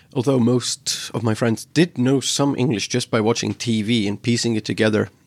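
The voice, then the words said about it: American-sounding English accent. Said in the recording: “my accent has just gone all over the place. Like I would speak with English accent. Then after a period of just watching American movies, I just started speaking like this.”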